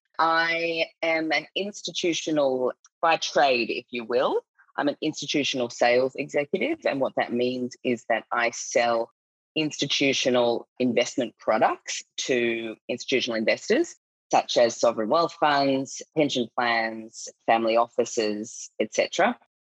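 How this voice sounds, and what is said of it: Australian accent. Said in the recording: “obviously I'm Australian. You can probably tell by my accent. It's hard to hide it.”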